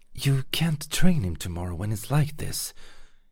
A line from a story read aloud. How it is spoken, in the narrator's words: hissed the unmistaken voice of Etheria